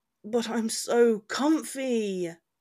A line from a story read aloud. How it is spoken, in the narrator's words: he whined